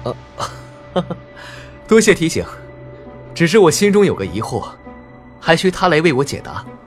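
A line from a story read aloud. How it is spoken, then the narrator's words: Startled, then laughing. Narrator (Chinese): 灵石一愣，继而笑道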